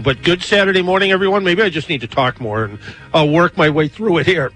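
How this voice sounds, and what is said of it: Hoarse, strained voice. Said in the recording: “It seems like I've lost my voice because of allergies or something.”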